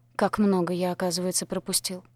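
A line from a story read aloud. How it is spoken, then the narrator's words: Muttering. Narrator (Russian): пробормотал он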